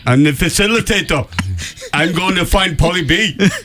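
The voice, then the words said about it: Put-on Jamaican accent. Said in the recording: “sounded Jamaican there at the end”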